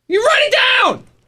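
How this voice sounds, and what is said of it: Yelling. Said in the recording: “worst person's yelling right now. ... why are you yelling at me for no reason?”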